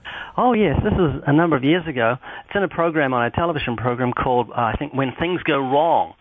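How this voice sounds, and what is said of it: Strange accent. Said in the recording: “I've got a strange accent”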